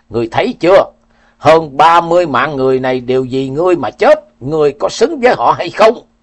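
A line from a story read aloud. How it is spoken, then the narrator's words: Old man roaring. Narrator (Vietnamese): Lão gào lên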